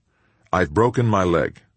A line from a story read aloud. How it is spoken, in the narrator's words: calmly told his partner